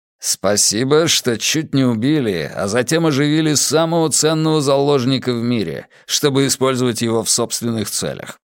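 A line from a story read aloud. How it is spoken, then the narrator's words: Plain. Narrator (Russian): сказал Каз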